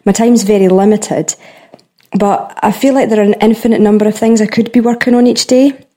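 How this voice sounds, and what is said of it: Adorable Scottish accent. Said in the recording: “have you ever heard a more adorable accent in your entire life? ... swept away into the movie Brave ... That has to be a Scottish accent, right?”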